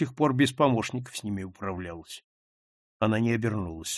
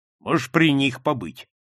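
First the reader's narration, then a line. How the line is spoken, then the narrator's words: Rude reply. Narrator (Russian): грубо ответил он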